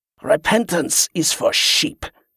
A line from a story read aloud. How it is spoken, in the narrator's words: he snarled